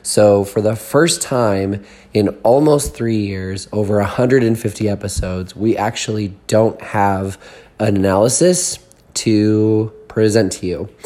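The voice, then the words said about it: Hoarse, weakened voice. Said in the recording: “as you can tell, this is not how I normally sound ... losing my voice”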